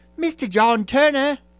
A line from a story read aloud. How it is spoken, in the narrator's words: cried the hotel waiter